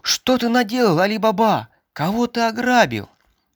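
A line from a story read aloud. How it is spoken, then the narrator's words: Frightened shout. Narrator (Russian): побледнела от страха и крикнула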